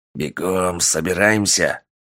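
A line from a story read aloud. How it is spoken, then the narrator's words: Hissed. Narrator (Russian): прошипел Полос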